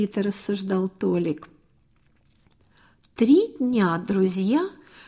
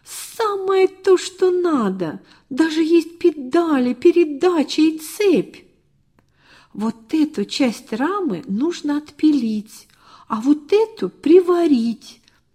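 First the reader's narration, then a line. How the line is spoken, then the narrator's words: Exclaiming almost in unison. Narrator (Russian): чуть не разом воскликнули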